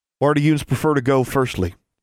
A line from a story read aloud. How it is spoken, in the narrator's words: Mordecai asked, in a less belligerent tone than his brother